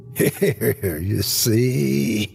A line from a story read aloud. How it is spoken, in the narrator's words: he laughed in madness